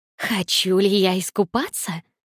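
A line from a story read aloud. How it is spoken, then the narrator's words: Mocking question. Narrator (Russian): Насмешливо переспросила она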